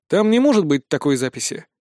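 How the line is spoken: Calm reply. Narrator (Russian): спокойно отреагировал я на завуалированное обвинение

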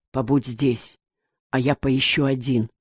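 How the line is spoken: Quiet. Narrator (Russian): тихо сказал Крутов

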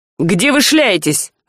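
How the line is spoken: Irritated, heated. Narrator (Russian): раздраженно встретил Альк с жаром

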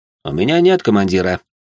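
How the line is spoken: Calm remark. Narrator (Russian): спокойно заметил я

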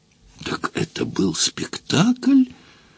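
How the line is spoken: Unsteady voice, feigning courage. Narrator (Russian): нетвердым голосом произнес храбрящийся Фандорин

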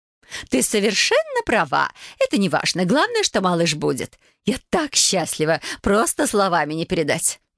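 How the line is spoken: Joyful exclamation. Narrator (Russian): воскликнула она

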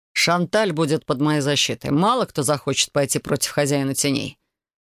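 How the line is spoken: Dry. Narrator (Russian): сухо произнес Элай

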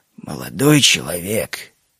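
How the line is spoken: Old man, gentle, pained. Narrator (Russian): мягко перебил меня старик, при этом болезненно поморщившись

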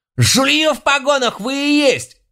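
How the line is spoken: Clerk's desperate shriek. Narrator (Russian): завизжал дьяк, видимо, надеясь, что его услышат в Бресте и спасут

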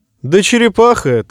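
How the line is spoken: Cheerfully declared. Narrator (Russian): весело заявил принц

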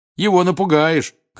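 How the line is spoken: Shouted. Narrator (Russian): крикнул Рон

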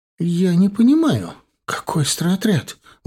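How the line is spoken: Indignant question. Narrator (Russian): возмущенно спросила она родителей

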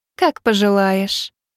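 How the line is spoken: Cooing. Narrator (Russian): проворковала Лик

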